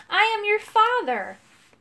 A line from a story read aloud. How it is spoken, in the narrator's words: cried